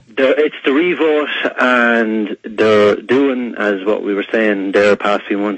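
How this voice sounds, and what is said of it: Irish accent. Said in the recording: “It's ... from Ireland ... It's just my accent.”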